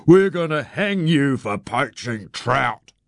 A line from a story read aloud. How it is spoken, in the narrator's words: I bellowed through my cupped hands